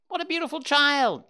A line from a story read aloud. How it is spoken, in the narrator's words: exclaimed again